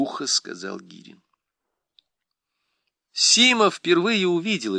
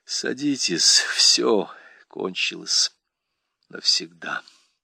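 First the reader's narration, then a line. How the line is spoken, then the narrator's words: Tired. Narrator (Russian): устало сказал он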